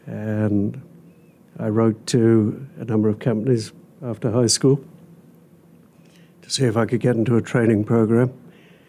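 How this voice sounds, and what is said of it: British accent. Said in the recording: “you're from the UK, correct? ... So it's not a Hoosier accent that we're hearing”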